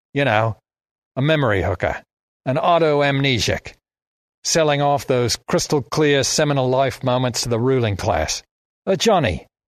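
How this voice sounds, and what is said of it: Broad Australian accent. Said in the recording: “the broad Australian accent coming out of the old Chinese guy's mouth”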